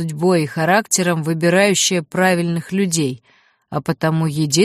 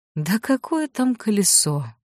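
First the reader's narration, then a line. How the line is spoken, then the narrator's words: Tired old man, dismissive. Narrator (Russian): устало отмахнулся старик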